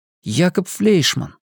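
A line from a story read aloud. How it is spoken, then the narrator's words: Whispered. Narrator (Russian): прошептал Макс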